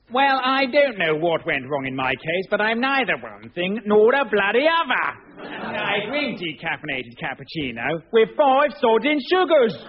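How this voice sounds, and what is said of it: Accent swinging between posh and Cockney. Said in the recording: “His bizarre accent, which swung wildly between upper class and Cockney”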